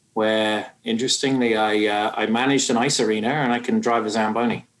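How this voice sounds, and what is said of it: British accent. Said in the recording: “you can probably tell from my accent, I'm not from these parts, and uh, I hail from the UK”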